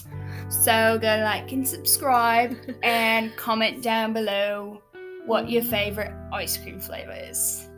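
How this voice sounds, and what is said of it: Put-on YouTuber-style accent. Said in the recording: “why is that accent?”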